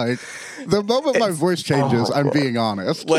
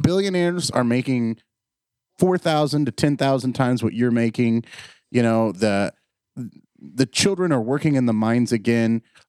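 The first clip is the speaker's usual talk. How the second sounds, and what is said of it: Deadpan monotone sarcasm. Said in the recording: “deadpanned monotone sarcasm ... the deadpan sarcasm is how you know I'm being sarcastic”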